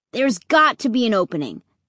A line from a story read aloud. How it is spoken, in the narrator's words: Luke said